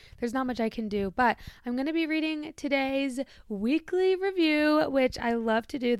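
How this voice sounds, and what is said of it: Shaky, lower-pitched voice. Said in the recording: “my voice is still a little bit shaky ... I still have a little bit of a lower voice ... I don't sound the same”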